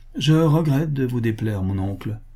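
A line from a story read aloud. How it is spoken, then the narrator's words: Cold. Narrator (French): dit-il froidement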